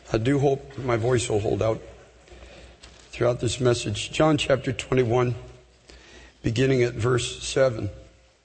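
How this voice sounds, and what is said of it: Hoarse, strained voice. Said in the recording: “I have a bit of laryngitis.”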